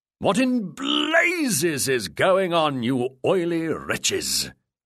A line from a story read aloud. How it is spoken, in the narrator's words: the pirate captain bellowed